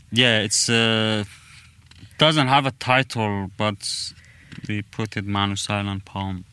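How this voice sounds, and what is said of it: Speaks with a noticeable accent. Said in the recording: “I don't think that my accent is... I really like your accent”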